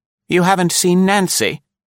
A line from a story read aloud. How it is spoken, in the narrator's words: queried anxiously